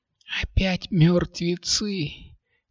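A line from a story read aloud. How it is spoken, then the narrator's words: Quiet sigh. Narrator (Russian): тихонько вздохнула Катя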